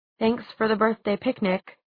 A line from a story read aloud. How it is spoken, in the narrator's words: she said, trying to keep her tone neutral